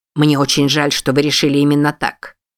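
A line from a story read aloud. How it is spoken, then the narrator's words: Cold furious hiss. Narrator (Russian): процедил Хэрингтон с холодной яростью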